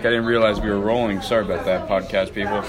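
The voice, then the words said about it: Voice affected by a cold. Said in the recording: “I got a little bit of a cold. Excuse my voice.”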